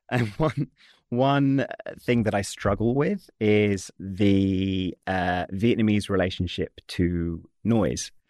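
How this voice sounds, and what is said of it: British accent. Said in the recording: “I am British, as you can tell by my accent.”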